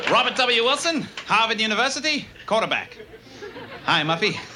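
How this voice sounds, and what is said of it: Posh rich guy voice. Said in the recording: “Good rich guy impression.”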